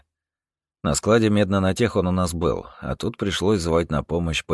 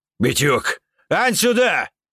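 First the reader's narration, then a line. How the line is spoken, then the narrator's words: Yelling into radio. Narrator (Russian): Медведь ... заорал в рацию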